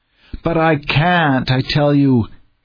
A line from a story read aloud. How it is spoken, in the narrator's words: he groaned the thought